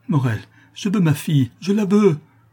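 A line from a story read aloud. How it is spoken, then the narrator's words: Exclaiming. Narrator (French): s'écria Madeleine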